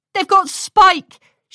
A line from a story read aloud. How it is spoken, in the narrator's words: she called out to her friends